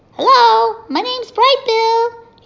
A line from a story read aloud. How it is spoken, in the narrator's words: he shouted over the waves